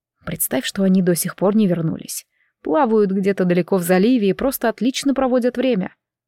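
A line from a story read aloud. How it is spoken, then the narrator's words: Soothing voice. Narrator (Russian): успокаивающим голосом сказал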